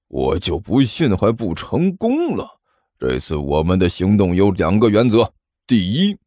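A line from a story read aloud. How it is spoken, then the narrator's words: Through gritted teeth. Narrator (Chinese): 尼采咬牙切齿的说道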